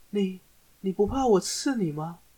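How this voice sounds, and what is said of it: Very soft, quiet hesitant voice. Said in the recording (Chinese): “小小声的问说”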